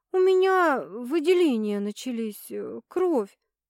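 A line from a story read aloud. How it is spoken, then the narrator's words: Strained, forced out. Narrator (Russian): выдавила она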